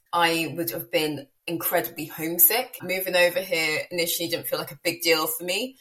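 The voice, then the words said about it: British accent. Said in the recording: “Me by my accent, obviously I'm from the UK”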